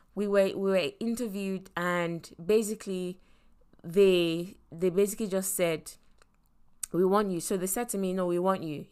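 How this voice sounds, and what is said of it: Nigerian accent in English. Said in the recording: “me with my Nigerian accent”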